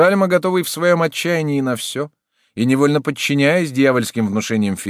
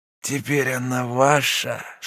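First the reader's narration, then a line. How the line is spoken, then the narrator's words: Whispering man. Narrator (Russian): шептал метис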